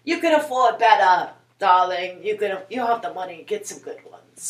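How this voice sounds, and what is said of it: Imitating Lisa's accent. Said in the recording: “that's Lisa's accent, not James”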